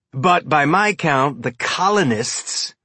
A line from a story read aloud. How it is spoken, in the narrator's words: he sneered the word